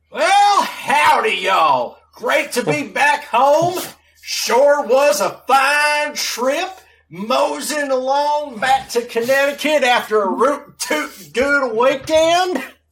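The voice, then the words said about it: Put-on Southern Texas-style accent. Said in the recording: “Daniel Ricciardo's approximation of a Texas accent, which is more akin to a North Carolina accent.”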